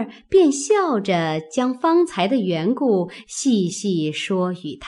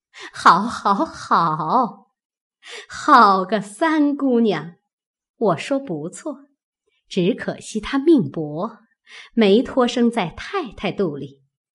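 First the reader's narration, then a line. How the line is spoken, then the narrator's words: Laughing. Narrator (Chinese): 凤姐儿笑道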